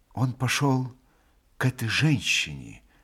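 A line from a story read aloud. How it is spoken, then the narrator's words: Quiet. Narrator (Russian): тихо прибавил Алеша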